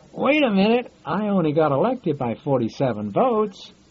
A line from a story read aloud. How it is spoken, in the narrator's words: One of the mayors called out